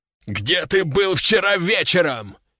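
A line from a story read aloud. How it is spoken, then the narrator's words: Shouting, punctuated by blows. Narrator (Russian): кричал начальник, не забывая каждое слово подкреплять ударом дубинки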